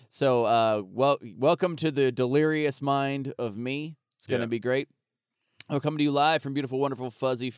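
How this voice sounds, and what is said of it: Sick, cold-affected voice. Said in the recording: “I have a cold. ... I am sick as fuck.”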